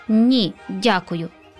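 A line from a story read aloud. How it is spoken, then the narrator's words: Plain. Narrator (Ukrainian): сказав святик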